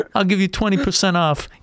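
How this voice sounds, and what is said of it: Fat Tony impression, Travolta-like. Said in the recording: “Fat Tony ... Sounds more like John Travolta ... my impersonations”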